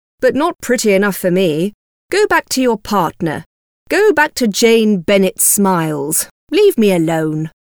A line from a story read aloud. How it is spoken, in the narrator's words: replied coldly